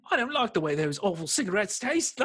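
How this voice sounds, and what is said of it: Bad put-on Cockney accent. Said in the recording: “a horrible Cockney accent ... I can only do shades of Russell Brand”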